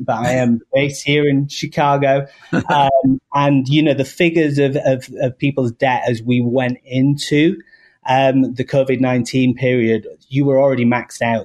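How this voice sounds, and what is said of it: English accent. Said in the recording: “I might have an English accent”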